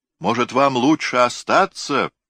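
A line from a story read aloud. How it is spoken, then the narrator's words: Shout. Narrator (Russian): крикнул Макс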